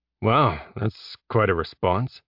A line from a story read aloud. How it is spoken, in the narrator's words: Jeb muttered